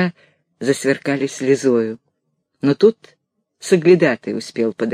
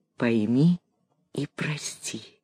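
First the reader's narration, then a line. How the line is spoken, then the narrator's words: Quiet. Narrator (Russian): тихо прибавил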